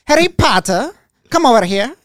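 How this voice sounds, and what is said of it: Imitating Harry Potter characters' accent. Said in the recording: “that's their accent. Wait, the whole damn time. ... That's how they talk the whole time.”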